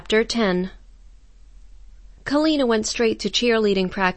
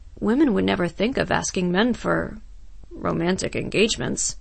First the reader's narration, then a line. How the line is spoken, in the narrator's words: said Stuart softly